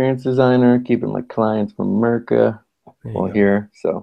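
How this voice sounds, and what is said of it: Usual voice. Nothing is said of it.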